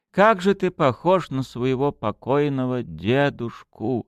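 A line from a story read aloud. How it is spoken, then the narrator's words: Sighing aunt. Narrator (Russian): вздохнет тетка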